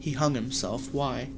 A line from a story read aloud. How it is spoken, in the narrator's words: asked